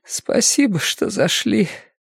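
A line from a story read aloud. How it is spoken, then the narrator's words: Hoarse. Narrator (Russian): хрипло выговорила она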